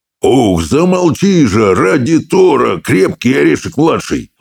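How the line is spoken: Roaring. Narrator (Russian): взревел брехун

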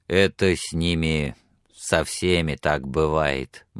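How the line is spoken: Gloomy grumble. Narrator (Russian): мрачно проворчал Билли

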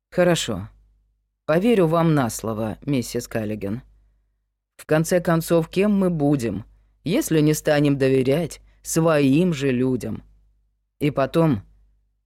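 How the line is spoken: Calm statement. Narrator (Russian): шериф спокойно сказал

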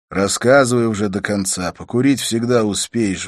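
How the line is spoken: Sighing. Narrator (Russian): вздохнул

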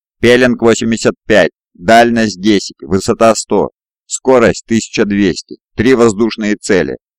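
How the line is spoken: Loud operator report. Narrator (Russian): громко докладывает оператор

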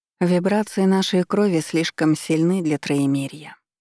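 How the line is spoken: Soft reply, woman. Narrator (Russian): мягко отозвалась женщина, моя мама

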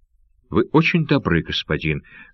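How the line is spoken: Still trembling voice. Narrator (Russian): сказала Сурама все еще дрожащим голосом

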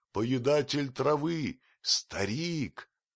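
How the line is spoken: Crowd shouting and shrieking. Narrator (Russian): Все его население кричало и взвизгивало

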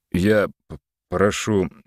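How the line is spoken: Stammering. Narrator (Russian): заикаясь, начал Антон

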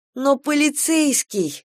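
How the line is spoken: Pleading. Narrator (Russian): взмолилась Кира

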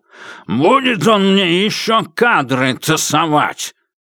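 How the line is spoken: Angry grumble. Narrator (Russian): сердито посопел, отходя, и пробурчал

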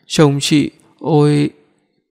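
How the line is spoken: Tense, stammering. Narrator (Vietnamese): Vẫn có vẻ hơi căng thẳng, nói ấp úng

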